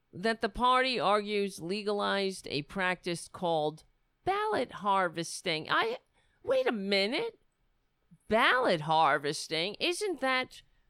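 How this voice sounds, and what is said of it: New York accent. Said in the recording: “Nancy Drew with a New York accent over here.”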